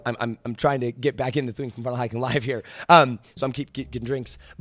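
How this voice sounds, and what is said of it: Strained, failing voice. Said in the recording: “my voice is going out”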